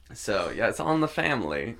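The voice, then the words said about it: Put-on unidentified accent. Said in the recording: “I don't know what accent I was trying to do there.”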